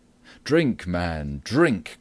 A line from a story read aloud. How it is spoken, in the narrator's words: cried Robin